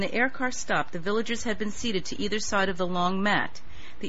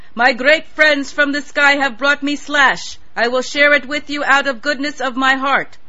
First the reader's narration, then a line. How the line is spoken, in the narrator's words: he shouted